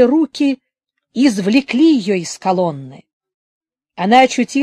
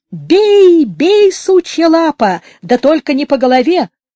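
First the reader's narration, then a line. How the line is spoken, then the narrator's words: Screaming while being beaten. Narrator (Russian): На нее сыпались удары его кулаков, она кричала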